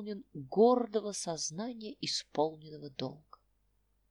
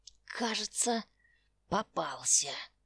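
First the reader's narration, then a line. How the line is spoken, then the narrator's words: Whisper through gritted teeth. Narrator (Russian): стиснув зубы, прошептал он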